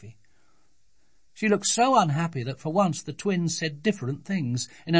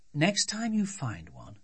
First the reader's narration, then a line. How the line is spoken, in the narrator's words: said her mother